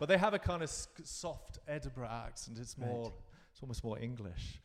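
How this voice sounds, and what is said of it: Usual voice. Nothing is said of it.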